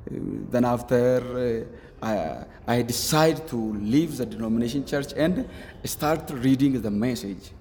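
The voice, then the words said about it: Non-native English accent. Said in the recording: “your accent, your English is quite good, actually”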